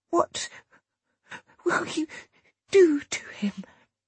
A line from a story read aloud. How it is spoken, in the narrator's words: The woman said between gasps